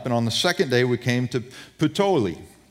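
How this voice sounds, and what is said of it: Put-on Italian accent. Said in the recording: “you got to throw a little Italian accent in it. I don't know how good of an accent it is”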